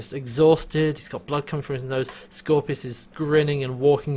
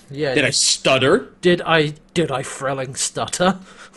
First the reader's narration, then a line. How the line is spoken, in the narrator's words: the yelling, yelling